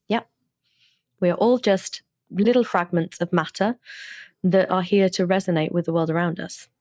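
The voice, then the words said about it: British accent. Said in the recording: “best British accent I've had on the show in I don't know how long”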